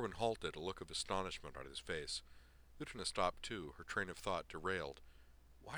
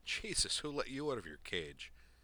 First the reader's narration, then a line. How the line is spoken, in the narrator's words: he asked happily